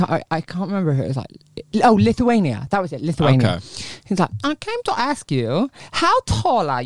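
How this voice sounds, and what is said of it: Usual voice. Nothing is said of it.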